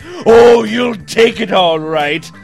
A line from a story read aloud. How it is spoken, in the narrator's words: Santa growled with a sadistic grin on his face